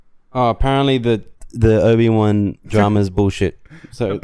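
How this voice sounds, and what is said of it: Usual voice. Nothing is said of it.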